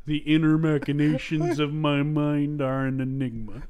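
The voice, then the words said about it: Imitates a cartoon character's voice. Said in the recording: “my Patrick impression? ... Worse than mine, for sure.”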